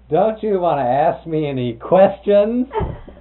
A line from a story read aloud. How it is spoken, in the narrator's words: he'd laugh and he'd say